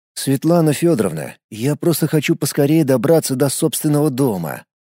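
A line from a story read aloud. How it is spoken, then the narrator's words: Weary. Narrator (Russian): устало произнес я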